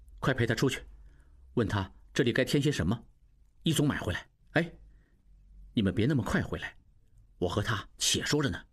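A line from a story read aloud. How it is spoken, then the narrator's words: Low voice. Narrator (Chinese): 应季低声道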